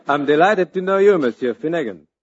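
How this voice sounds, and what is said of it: Exaggerated foreign accent. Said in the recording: “she talks funny ... it's an accent. The guy's got an umlaut in his mouth.”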